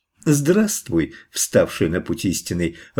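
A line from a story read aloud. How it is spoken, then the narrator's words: Joyful exclamation. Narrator (Russian): радостно восклицает змей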